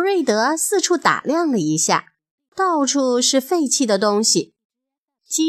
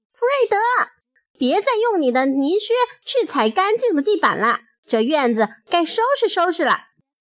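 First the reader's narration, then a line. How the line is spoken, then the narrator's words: Loud yelling. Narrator (Chinese): 农场主弗瑞德先生的太太珍妮却大喊大叫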